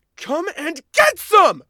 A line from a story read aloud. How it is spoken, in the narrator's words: Katrin roared back